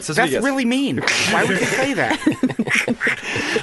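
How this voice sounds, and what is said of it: Cartoon rabbit character voice impression. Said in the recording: “That's ... doing his Roger Rabbit impression.”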